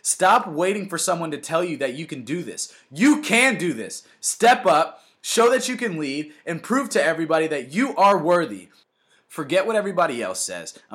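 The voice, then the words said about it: Loud, excited yelling. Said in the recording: “I'm yelling. I'm very, very hype about this”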